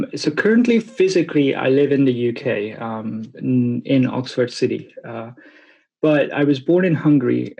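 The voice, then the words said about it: Speaks with a foreign accent. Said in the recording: “there's an accent”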